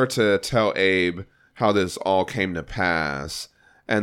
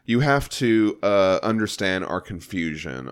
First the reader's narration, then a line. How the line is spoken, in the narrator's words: Isaac says